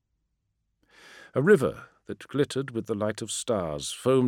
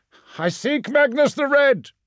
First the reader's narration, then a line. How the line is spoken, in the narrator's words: shouted